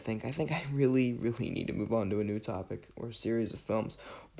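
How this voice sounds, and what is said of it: Raspy, under-the-weather voice. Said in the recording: “I am a little under the weather, actually, in case you couldn't tell. ... My voice is a little raspy, a little worse for wear today.”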